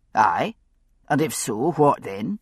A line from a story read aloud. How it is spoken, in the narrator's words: Roger gave a brief snort, the verbal equivalent of a shrug